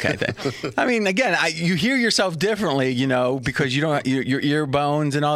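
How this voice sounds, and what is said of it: Usual voice. Nothing is said of it.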